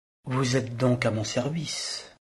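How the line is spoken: Soft voice. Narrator (French): lui dit d'une voix douce Véronique

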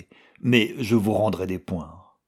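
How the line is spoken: Superior tone. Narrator (French): dit-il à l'Aragonais d'un ton de supériorité

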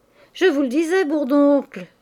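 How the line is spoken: Smiling exclamation. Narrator (French): s'écria Mouret en souriant

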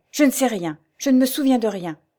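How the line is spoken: Exclaiming. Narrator (French): s'écria-t-elle

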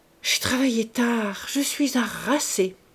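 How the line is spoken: Murmur. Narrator (French): murmura-t-il

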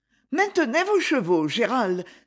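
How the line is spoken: Exclaiming. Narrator (French): s'écria Lady Isabelle

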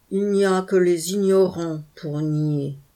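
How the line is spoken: Thick, heavy growl. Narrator (French): grogna une voix épaisse et lourde

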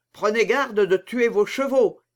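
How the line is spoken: Laughing shout. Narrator (French): cria D'Artagnan en éclatant de rire

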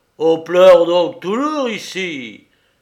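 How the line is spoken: Exclaiming. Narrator (French): s'écria-t-il

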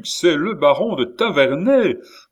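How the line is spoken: Exclaimed. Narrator (French): s'écria le duc

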